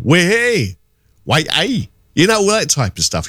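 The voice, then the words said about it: Put-on Geordie accent. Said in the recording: “you would hear the Geordie accent ... Hear the Geordie accent”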